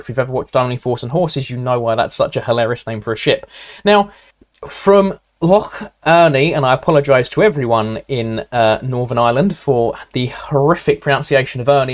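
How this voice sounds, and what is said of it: Essex accent. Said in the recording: “my Essex accent comes through”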